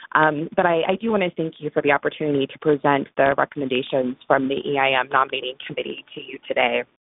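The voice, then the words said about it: Sick, unwell-sounding voice. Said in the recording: “as you might be able to tell from my voice, I'm a little sick”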